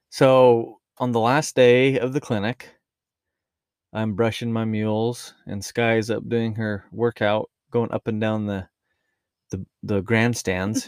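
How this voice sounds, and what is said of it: Rural Utah American accent. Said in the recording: “This is how I talk, my Utah rural accent”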